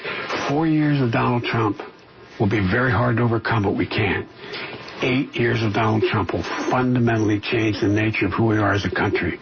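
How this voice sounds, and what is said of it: Low gravelly near-whisper. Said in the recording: “doing it like Clint Eastwood, Dirty Harry ... whispering like that ... creepy whisper dude”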